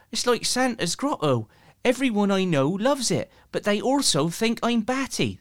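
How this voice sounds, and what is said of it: Good Bristolian accent. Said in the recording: “It's quite a good Bristolian accent, that, actually.”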